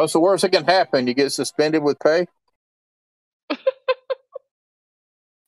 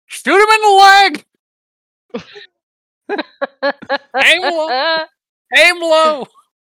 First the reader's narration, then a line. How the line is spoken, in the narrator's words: Darren's going to scream